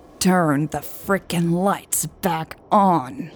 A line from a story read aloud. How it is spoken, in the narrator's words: Hobbs growled